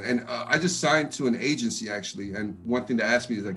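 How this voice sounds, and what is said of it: Deep voice, fast East Coast accent. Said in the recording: “everyone thinks that I'm from the East Coast ... I have a deep voice, and the way I speak kind of fast ... I kind of picked up, the accent from the East Coast”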